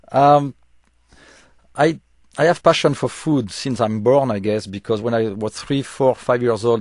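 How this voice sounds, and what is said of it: Noticeable foreign accent in English. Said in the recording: “with my accent, it's difficult for me to go on TV and have a regular TV show ... your accent sounds lovely on the radio”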